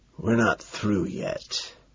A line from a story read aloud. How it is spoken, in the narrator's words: explain in a hoarse whisper